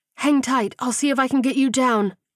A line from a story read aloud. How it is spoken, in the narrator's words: she blurted